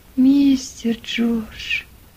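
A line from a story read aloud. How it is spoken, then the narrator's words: Barely audible whisper. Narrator (Russian): Чуть слышно прошептал Том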